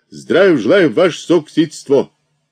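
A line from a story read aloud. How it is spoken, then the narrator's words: Delighted loud laughter. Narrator (Russian): Мартыновский захохотал, придя в восторг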